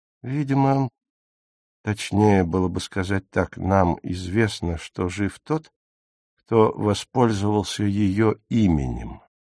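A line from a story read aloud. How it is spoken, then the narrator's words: Soft conceding tone. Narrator (Russian): мягко уступил Богарт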